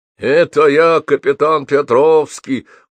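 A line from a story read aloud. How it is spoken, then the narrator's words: Muffled through mask. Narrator (Russian): глухо раздалось из-под маски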